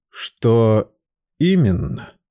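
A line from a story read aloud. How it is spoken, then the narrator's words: Slow. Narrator (Russian): медленно проговорил он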